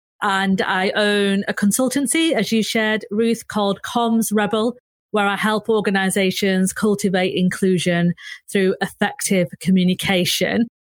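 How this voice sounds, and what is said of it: Northern English accent (Manchester). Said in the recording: “if you can't tell by my accent, I am a proud northerner. I am based in Manchester”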